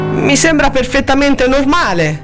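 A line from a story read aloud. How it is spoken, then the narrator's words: Perplexed and resentful. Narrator (Italian): disse, con il tono perplesso e risentito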